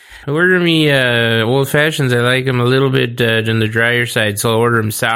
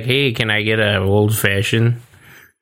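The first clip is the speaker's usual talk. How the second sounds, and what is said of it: Put-on Chicago-like accent. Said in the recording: “It's like almost like a Chicago accent. ... That was the same accent you just did.”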